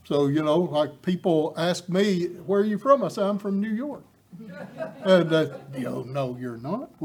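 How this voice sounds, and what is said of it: East Tennessee Southern accent. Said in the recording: “my accent betrays me. I'm from East Tennessee.”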